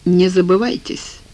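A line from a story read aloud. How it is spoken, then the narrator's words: Cold. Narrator (Russian): холодно сказал Бах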